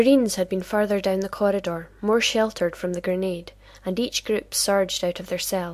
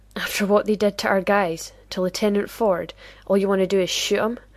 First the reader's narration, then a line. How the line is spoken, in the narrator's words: Ramirez laughed bitterly